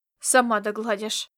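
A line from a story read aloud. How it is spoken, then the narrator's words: Annoyed female mutter. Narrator (Russian): буркнула раздосадованная Фапивата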